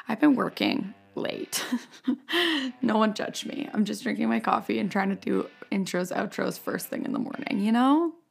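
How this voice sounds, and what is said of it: Raspy voice. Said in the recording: “I feel like I sound so raspy right now”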